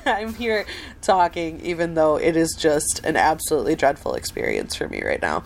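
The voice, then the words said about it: Sick, rough chest-cold voice. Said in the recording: “I sound just awful... I have been very sick this week, so my voice is still kind of recovering from just a really awful chest cold”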